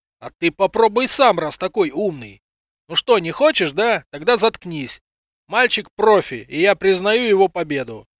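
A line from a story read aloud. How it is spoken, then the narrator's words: Ecstatic yelling. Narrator (Russian): Нюша, заорал самозабвенно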